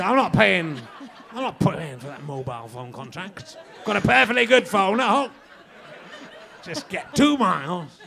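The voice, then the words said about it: Put-on Yorkshire accent. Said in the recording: “I do quite a good Yorkshire accent. Don't I?”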